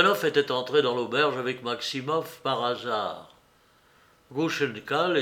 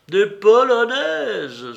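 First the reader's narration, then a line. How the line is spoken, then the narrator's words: Delirious joyful exclamation. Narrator (French): s'écria Mitya délirant de joie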